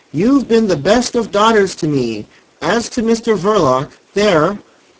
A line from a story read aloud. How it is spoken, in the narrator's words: screamed the old woman, earnestly above the noise